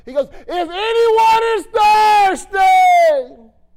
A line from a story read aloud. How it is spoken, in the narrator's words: He screamed like a lunatic in the middle of the house of God